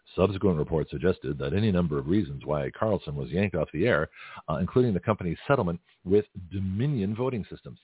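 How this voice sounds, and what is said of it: Newscaster-style reading voice. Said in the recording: “I'll give you my news voice”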